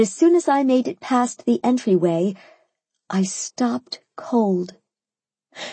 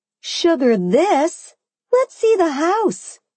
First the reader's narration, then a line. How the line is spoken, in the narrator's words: I cried